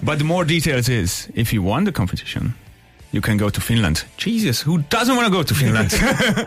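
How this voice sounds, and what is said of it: Non-native foreign accent. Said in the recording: “Guessing by the accent, you weren't born here?”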